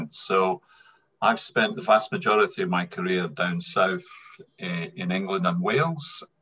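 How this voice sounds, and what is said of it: Strong Scottish accent. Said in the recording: “as the listeners will probably hear, I'm pretty much very Scottish, as you can hear from my accent.”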